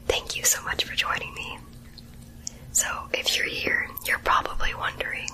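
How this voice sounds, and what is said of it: Whispering. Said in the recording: “why is this girl whispering in my ear?”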